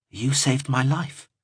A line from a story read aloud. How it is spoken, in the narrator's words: he replied softly